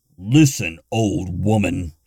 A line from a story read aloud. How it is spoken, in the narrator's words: Gunther growled